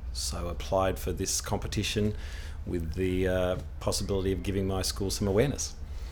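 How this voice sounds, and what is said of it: Australian accent. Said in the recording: “I'm a proud East Londoner with an Australian accent.”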